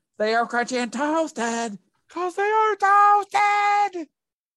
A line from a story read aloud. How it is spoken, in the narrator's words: mascots who screamed